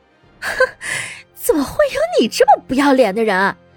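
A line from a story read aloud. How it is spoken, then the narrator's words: Cold contemptuous. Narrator (Chinese): 乐乐被生生气笑了，他冷声鄙夷道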